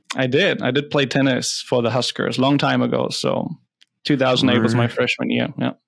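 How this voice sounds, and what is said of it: German accent. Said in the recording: “From Germany. Can't hide the accent.”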